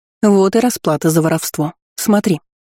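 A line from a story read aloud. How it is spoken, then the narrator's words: Sharp scolding. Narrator (Russian): прикрикнула она на старосту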